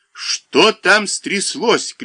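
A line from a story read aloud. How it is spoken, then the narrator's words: Shouting. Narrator (Russian): кричал Голованов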